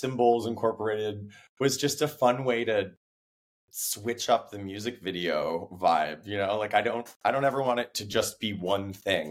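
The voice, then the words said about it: Hoarse, unusually deep voice. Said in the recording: “I'm still hoarse. I'm getting over laryngitis. So that's why my voice is really deep right now”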